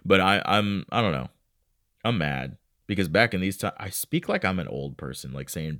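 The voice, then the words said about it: Slightly congested voice. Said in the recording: “I'm congested a little bit.”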